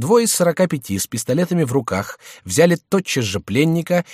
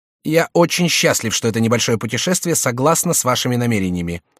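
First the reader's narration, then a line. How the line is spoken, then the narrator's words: Plain. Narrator (Russian): сказал Сент-Малин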